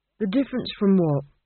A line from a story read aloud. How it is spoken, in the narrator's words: Granny sighed